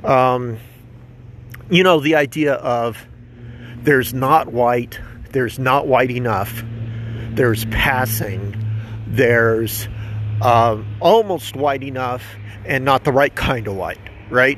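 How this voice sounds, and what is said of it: Slightly out of breath speaking. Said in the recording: “I'm a little out of breath. Walking a little bit too hard while I'm talking.”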